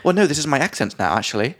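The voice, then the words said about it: Posh British accent. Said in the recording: “super posh British accent ... a kind of posh London accent”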